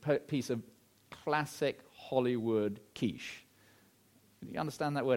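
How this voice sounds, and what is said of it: Usual voice. Nothing is said of it.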